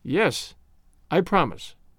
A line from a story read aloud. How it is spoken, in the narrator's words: I answered